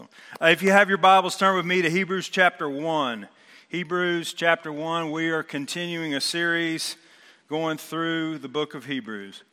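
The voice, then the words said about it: Strained voice. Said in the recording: “my voice is a little strained ... I was yelling at the Braves last night”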